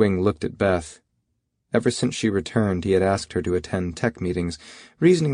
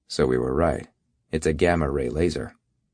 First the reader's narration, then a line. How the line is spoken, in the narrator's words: He said flatly